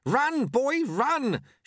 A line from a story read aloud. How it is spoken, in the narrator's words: shouted Lutze